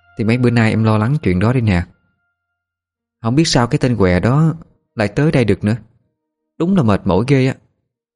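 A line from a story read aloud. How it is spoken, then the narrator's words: Weary sigh. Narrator (Vietnamese): Trân thở dài mệt mỏi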